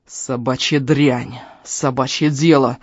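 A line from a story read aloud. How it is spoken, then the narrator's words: Growling. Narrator (Russian): зарычал он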